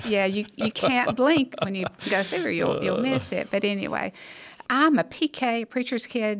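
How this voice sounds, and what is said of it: Alabama accent. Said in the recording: “You can tell by my accent... born, raised in Hackleburg, Alabama”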